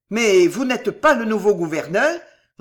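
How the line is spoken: Terrified roar. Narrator (French): rugit le sergent, blême d'épouvante

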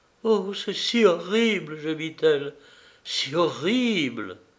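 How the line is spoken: Sobbing. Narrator (French): Elle éclatait en sanglots

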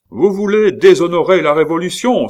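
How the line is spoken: Exclaiming. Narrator (French): s'écrie Thuriot

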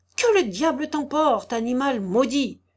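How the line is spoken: Furious pained exclamation. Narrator (French): s'écria le sabotier tout meurtri de sa chute, mais plus furieux encore de voir ses habits neufs souillés de fange

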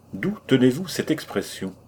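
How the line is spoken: Curt question. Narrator (French): demandai-je sèchement

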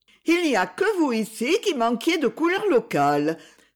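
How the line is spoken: Exclaiming. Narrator (French): s'écria Marjorie

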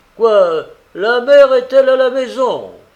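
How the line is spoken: Exclaimed. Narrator (French): s'écria Mourine

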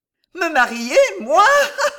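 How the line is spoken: Laughing exclamation, clapping. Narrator (French): s'écria-t-elle en frappant ses deux mains l'une contre l'autre et en riant

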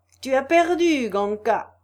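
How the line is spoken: Shouting. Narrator (French): cria-t-il

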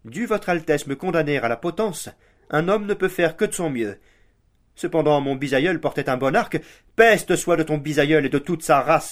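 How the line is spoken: Interrupting exclamation. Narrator (French): s'écria le prince en l'interrompant

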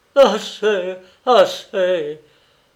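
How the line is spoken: Sobbing interruption. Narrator (French): interrompait le professeur Courtil en éclatant en sanglots

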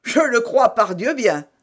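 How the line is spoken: Exclamation. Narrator (French): s'écria celui-ci

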